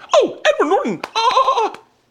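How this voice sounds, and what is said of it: Squealing dolphin or seal noise. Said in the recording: “Like a dolphin. ... Like a fucking, Leanne goes, were you a seal? ... Yeah, you just turned into a dolphin, man. That was a good impression.”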